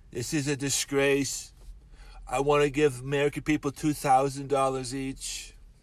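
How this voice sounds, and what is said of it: Bad Donald Trump impression. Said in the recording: “Trump was like ... It's a bad impression.”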